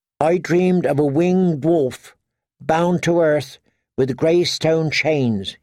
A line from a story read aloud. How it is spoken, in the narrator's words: he said